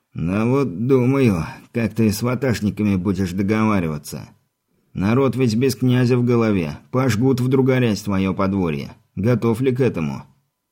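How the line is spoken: Stubborn strangled wheeze. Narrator (Russian): с придавленным горлом, но упрямо хрипит свое

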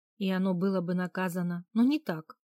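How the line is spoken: Angry objection. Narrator (Russian): сердито возразила мужу

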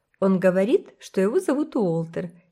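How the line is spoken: Giggling. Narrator (Russian): хихикнула Кора

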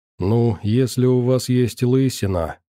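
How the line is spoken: Relieved exhale with smile. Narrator (Russian): с некоторым облегчением и легкой улыбкой выдохнула Варвара

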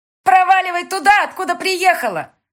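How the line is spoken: Shouting. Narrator (Russian): крикнула ей Рогозина

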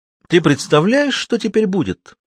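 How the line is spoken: Exclamation. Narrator (Russian): воскликнул Борис

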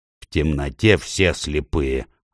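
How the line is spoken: Snapped back. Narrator (Russian): огрызнулся Дигл

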